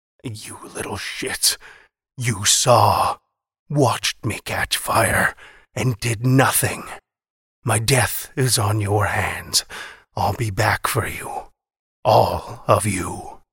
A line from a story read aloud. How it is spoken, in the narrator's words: From between scorched, cracked lips he wheezed